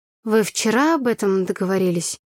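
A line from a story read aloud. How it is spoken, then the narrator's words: Sleepy voice. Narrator (Russian): сонным голосом поинтересовалась я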